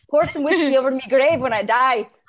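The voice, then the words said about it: Put-on Irish accent. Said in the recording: “I can do an Irish accent ... That was good.”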